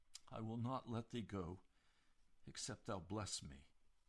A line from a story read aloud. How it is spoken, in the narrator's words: He cries out